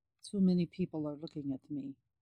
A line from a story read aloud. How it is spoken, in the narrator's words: Alexei murmured